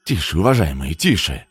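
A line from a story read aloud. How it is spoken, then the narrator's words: Hurried. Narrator (Russian): торопливо сказал Жора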